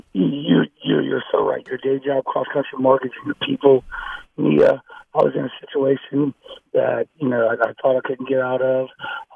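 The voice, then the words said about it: Rough, impaired voice. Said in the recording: “Sorry about my voice is bad.”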